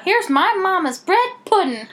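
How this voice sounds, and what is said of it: Put-on southern accent. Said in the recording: “you gave her a southern accent”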